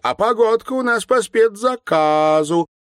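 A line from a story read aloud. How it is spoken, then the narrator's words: Singsong repetition. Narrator (Russian): нараспев повторяла жена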